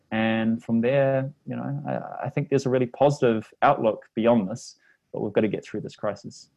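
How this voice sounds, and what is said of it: New Zealand accent. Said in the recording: “my Kiwi accent makes it hard for people to understand”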